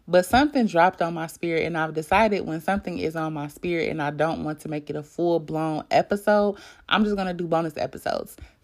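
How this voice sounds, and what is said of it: Raspy, crackly morning voice. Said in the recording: “excuse my voice. You know how you just wake up, ladies, and you have that little, you know, little rasp ... from waking up. So that's why my voice sounds ... a little crackly”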